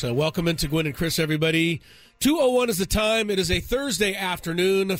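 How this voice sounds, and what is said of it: Voice sounds sick with a cold. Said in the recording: “now I have a cold ... I have a little cold”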